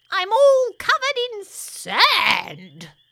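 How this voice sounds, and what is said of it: Squeaky hollering character voice. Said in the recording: “squeaky voice ... hollers”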